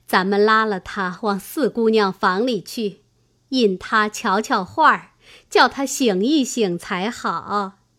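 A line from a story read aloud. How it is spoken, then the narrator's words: Laughing. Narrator (Chinese): 李纨笑道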